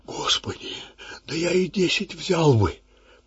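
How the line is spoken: Whisper. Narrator (Russian): прошептал отец Яков

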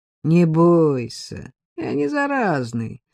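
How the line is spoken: Mocking. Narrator (Russian): сказал он насмешливо

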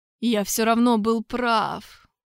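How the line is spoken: Strained, weak, dying. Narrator (Russian): выдавил умирающий из последних сил

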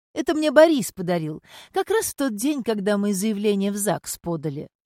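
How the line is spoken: Joyful announcement. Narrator (Russian): радостно сообщила Татьяна

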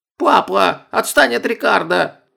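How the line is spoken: Shrill squeal. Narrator (Russian): взвизгнула Оля

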